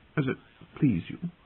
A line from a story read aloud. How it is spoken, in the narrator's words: finished weakly